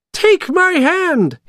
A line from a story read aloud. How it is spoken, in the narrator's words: he cried